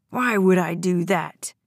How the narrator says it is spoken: General snarled

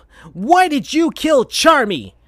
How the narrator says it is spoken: shouted Sonic at Vector

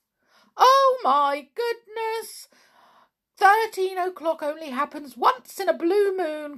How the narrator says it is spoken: cried the biggest pixie

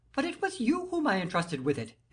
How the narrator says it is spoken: exclaimed the king

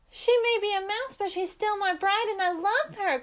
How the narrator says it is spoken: cried Miko

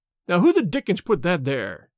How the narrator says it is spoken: he cried angrily

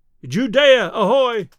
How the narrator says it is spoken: A thin shout answered

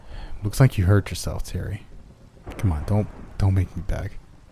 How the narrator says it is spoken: replied

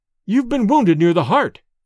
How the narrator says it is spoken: cried Dorda, his face pale

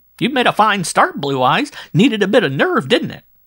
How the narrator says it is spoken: threw herself back on her chair and cried

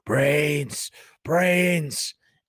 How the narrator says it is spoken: Morton rasping

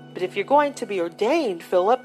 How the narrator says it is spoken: Aunt Louisa exclaimed in dismay

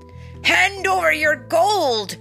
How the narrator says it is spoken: bellowed, trying to be fierce

